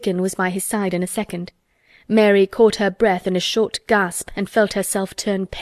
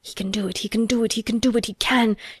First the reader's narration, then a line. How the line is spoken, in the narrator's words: gabbled over to herself under her breath as fast as ever she could